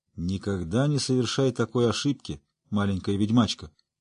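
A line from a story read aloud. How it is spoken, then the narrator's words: Gruff mutter. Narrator (Russian): буркнул он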